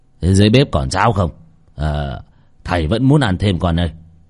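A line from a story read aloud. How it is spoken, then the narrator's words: Shouted question, mouth full. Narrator (Vietnamese): Vì đang ăn dở miệng, cụ Lý quát hỏi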